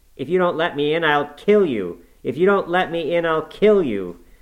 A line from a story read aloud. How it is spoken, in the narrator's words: he rather shrieked than said